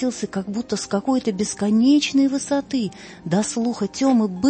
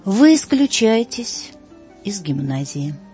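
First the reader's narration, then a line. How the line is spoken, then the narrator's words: Cold, calm headmaster. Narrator (Russian): проговорил холодно и спокойно директор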